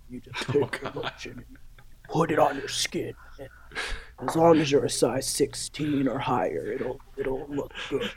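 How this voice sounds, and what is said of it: Sad, scary character voice. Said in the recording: “My sad, scary voice. ... Terrifying.”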